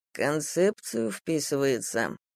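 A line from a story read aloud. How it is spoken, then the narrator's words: Thoughtful drawl. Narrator (Russian): задумчиво протянул Дима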